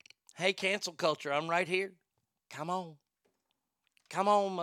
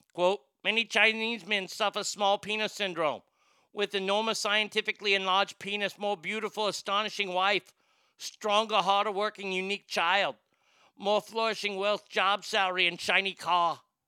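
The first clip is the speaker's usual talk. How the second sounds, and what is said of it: Put-on foreign accent. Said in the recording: “reading it with that accent”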